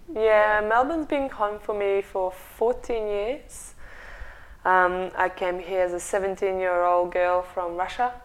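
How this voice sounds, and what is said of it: Non-native English accent. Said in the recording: “I'm judging from your accent ... that you weren't actually born here”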